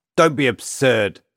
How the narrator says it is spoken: Alexei spat, incensed by the notion that his experience was anything other than ordinary

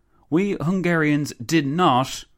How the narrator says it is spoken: the Countess exclaimed

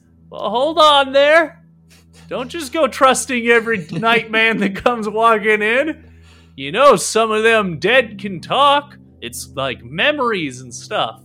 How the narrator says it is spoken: the person deeper inside, or down below, that he's shouting to says

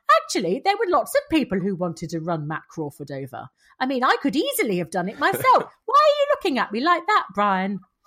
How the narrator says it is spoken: Jenny, who is continuing her rapid descent into cheerful sociopath, said brightly

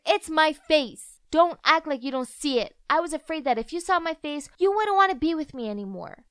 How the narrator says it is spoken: I shouted in anger

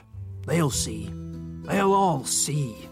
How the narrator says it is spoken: He muttered

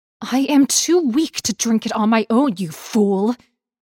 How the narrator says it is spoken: Wong An snapped

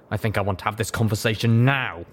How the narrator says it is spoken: he said in his firm and irritated voice

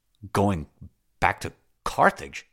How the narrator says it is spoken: he stammered

